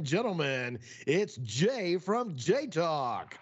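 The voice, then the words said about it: Deep announcer-style voice. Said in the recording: “I pulled out the deep voice, the Eddie Murphy.”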